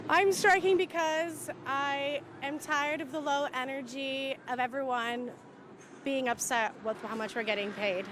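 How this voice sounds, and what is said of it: Canadian accent. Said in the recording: “I'm obviously Canadian, that's why my voice sounds like this”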